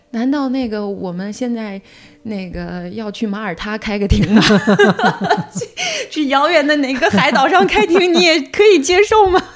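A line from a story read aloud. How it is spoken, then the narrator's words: Angry sarcastic joke. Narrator (Chinese): 我的律师就是非常生气，他就当时开了个玩笑，他说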